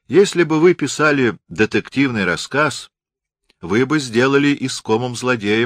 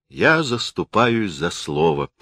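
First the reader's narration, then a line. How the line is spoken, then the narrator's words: Soft speech. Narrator (Russian): мягко сказал критик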